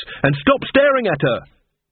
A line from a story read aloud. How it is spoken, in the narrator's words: shouted, clenching her fists